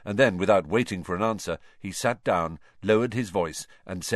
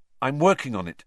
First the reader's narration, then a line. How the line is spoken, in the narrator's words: said Harry quickly